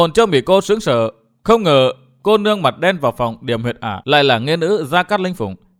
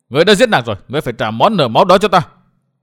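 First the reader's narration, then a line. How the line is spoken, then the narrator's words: Shouting. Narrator (Vietnamese): Chàng hét tiếp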